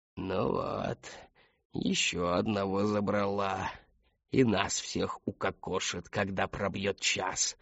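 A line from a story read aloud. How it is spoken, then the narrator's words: Creaky voice. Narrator (Russian): проскрипела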